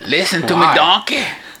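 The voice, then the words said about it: Shrek voice, Southern-sounding accent. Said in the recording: “That was like a Southern Shrek... Southern Shrek. Well, I was going for Irish... that's my thick Spanish accent coming through on my Shrek”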